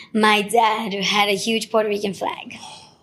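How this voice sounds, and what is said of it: Emotional, choked-up voice. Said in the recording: “ooh, I'm getting emotional”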